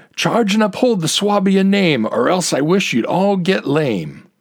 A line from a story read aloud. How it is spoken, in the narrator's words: Veitli, quite courageous in the rear, yelled